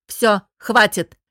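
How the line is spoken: Barked, dragoness. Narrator (Russian): рявкнула дракониха

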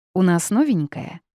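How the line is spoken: Cheerful smiling question. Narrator (Russian): весело улыбаясь, поинтересовался Арис

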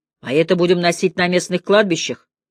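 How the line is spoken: Grim joke. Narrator (Russian): мрачно пошутил

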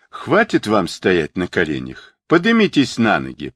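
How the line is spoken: Conciliatory. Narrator (Russian): произнес примирительным тоном Сунь Укун

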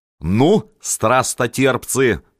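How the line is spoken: Barking at them. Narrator (Russian): рявкнул на них

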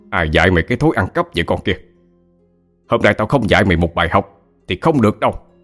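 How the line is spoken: Angry shout. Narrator (Vietnamese): ông Hội đã quát lên

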